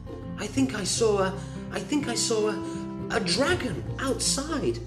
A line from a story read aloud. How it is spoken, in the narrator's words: Gretel cried convincingly